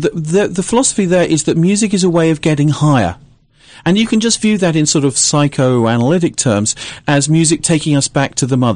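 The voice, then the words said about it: British accent. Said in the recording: “from ... your ... accent ... I'm actually British.”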